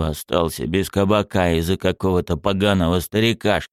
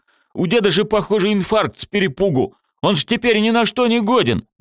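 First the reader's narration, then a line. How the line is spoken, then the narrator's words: Howling brute. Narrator (Russian): Громила взвыл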